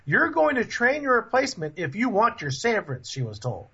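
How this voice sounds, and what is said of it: Put-on Southern twang. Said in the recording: “you had a southern twang there for a minute”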